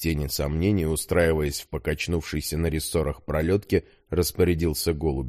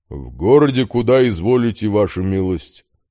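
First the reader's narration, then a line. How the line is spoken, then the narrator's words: Coachman's deep bass. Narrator (Russian): пробасил извозчик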